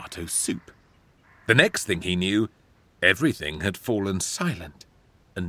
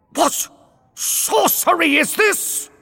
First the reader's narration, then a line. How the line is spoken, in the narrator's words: He spluttered